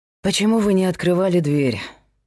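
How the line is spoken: Sighing. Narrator (Russian): вздохнул Герман

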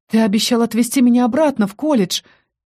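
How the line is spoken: Nervous breathy exhale. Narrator (Russian): нервно выдохнула я

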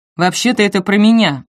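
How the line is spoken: Snorting. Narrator (Russian): фыркнул Остин

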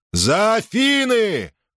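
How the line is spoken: Shouting. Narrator (Russian): крикнул Перикл своим людям

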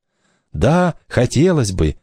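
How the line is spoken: Agitated reply. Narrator (Russian): взволнованно отозвалось колесо

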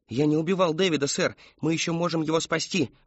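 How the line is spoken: Pleading. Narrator (Russian): взмолился Кристофер

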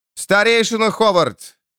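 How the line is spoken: Young man shouting. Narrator (Russian): крикнул молодой лорд

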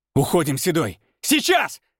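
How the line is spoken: Urgent bark. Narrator (Russian): рявкнул Александр

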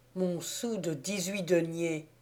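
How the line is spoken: Murmur. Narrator (French): murmurai-je

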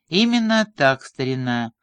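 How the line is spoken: Mocking and confident. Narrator (Russian): голос грандмастера звучал насмешливо и уверенно, как у человека, принявшего единственно правильное решение

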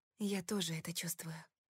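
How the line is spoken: Whisper. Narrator (Russian): прошептала

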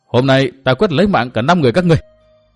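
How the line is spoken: Loud yell. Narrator (Vietnamese): Tư Mã Minh hét to

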